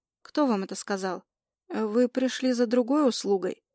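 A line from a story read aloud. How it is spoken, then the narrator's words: Mumbling. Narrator (Russian): Начинаю мямлить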